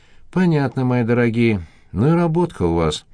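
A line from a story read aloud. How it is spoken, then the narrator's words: Sighing. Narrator (Russian): вздохнула Евгения Георгиевна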